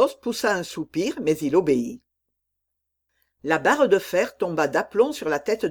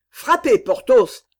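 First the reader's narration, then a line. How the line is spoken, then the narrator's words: Sepulchral shout. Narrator (French): cria la voix sépulcrale d'Aramis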